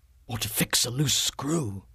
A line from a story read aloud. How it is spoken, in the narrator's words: Phillips whispered